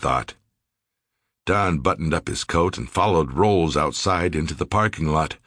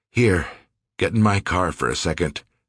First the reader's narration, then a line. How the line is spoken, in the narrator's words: the editor said